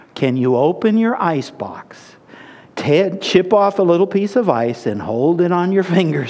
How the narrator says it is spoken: said the voice

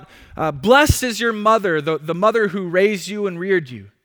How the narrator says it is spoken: someone from the crowd cries out

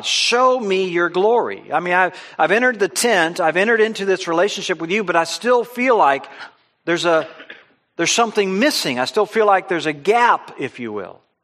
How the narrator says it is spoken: Moses was continuing to plead with God

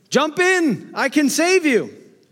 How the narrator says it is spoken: the fellow in the motorboat shouted

